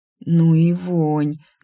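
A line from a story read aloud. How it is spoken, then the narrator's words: Strained mouth-breathing. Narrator (Russian): дыша открытым ртом, выдавила я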